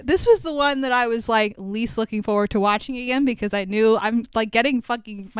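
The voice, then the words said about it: Emotional, voice breaking. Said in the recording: “my voice is breaking right now talking about it.”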